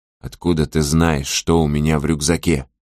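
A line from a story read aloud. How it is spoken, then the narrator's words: Menacing question. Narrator (Russian): Сожирук грозно спросил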